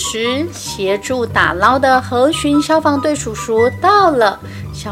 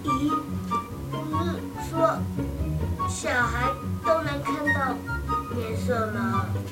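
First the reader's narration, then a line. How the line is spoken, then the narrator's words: Incredulous murmur. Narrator (Chinese): 小猴子不可置信的喃喃说道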